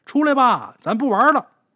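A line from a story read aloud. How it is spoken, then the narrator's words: Impatient shout. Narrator (Chinese): 也没耐心了，就喊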